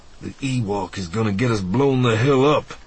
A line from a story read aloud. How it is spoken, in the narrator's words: Lando grunted under his breath